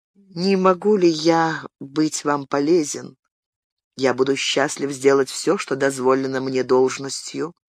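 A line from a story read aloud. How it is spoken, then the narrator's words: Gentle, after a pause. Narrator (Russian): Помолчав, господин де Сазерак мягко сказал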